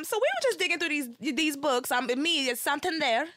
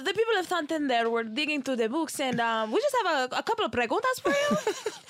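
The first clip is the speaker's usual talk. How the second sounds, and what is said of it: Put-on Spanish accent. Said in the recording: “Let me put on my Spanish accent.”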